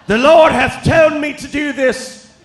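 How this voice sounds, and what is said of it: Put-on archaic preacher-style accent. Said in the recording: “I don't know what that accent is”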